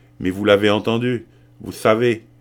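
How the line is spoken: Exclaimed. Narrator (French): s'écria-t-elle

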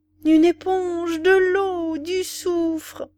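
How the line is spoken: Angry terrible scolding. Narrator (French): On se mettait en colère, on grondait d'une voix terrible

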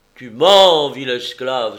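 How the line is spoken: Angry exclamation. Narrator (French): s'écria Diomède en colère

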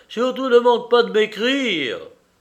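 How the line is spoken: Shouted. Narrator (French): lui cria Pan Mirolavski

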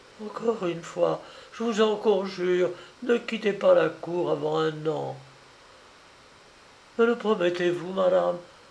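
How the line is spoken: Faint, fading voice. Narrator (French): il ajouta d'une voix presque éteinte

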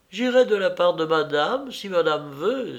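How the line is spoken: Maid's eager exclamation. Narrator (French): s'écria la femme de chambre, enchantée de voir de près une femme qui avait voulu se tuer

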